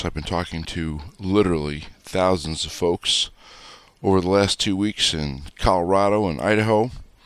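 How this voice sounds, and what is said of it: Slightly hoarse voice. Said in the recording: “my voice is probably a little hoarse.”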